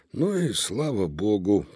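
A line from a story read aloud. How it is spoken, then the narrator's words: Sleepless tired grumble. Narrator (Russian): пробурчал художник, который глаз не сомкнул из-за мощного храпа кузена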